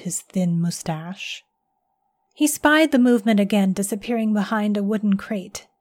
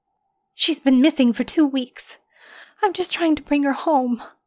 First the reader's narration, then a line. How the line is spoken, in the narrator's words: said, her voice shaking